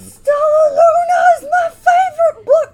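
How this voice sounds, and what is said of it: Excited screaming voice. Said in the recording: “I'm screaming. ... why I was screaming.”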